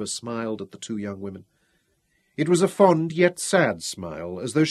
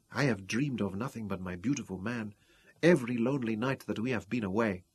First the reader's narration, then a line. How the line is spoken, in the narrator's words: murmured Ruth